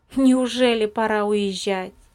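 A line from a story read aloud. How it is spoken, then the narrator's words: Plain question. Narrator (Russian): спросил Виталик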